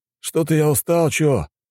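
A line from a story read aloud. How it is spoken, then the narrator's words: Sighing. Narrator (Russian): вздохнул один из братьев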